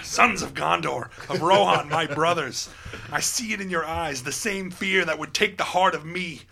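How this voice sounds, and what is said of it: Impression of Aragorn's speech voice. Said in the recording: “I love that voice, too ... can do the voice”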